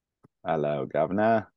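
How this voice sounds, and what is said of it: Put-on British accent. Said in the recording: “So I should do a British accent. ... Well, you should hear Corey's British accent. It's pretty stellar.”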